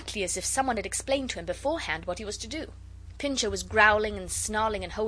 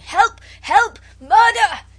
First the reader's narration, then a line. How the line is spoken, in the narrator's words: he was shouting